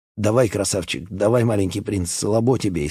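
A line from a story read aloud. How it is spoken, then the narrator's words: Laughing. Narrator (Russian): Он засмеялся и сказал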